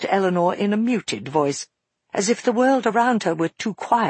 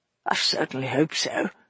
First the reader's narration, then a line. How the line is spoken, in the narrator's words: muttered Eleanor